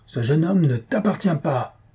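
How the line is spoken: Exclaimed. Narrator (French): s'écria-t-il

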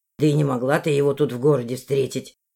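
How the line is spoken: Snorted. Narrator (Russian): фыркнул

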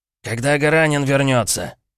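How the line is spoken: Barked. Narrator (Russian): рявкнул он

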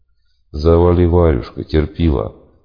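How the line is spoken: Bored tone. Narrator (Russian): все тем же скучающим тоном ответил я

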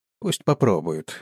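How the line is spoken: Grumbled. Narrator (Russian): буркнул я

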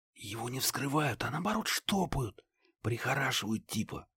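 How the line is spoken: Whisper. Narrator (Russian): прошептал Стеча

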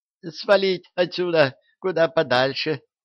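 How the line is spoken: Squeak. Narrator (Russian): пискнула Демельза

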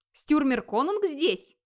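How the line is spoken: Several voices exclaiming together. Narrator (Russian): воскликнуло разом несколько голосов

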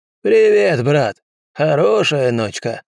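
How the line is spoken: Hoarse croak. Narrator (Russian): хрипло каркнула серебристая фигура

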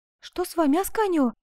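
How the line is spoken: Frightened question. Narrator (Russian): испуганно спросила Коломба

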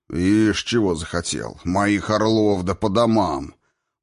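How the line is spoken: Old warrior's booming voice. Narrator (Russian): Прогудел другой пожилой уже воин

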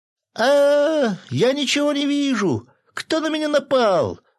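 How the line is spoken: Muffled panicked wailing. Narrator (Russian): Вопил динозаврик из-под шторы

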